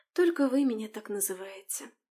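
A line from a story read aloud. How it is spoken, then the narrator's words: Sad smile. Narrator (Russian): грустно улыбнулась девушка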